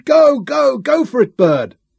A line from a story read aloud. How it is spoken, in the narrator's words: those who had bet against the Americans screamed